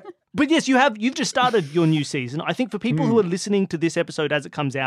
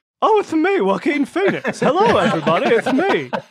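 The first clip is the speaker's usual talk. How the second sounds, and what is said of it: Imitates another person's voice. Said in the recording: “doing a Joaquin Phoenix impression? ... he doesn't have as distinct a voice”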